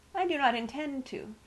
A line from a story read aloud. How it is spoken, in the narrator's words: replied calmly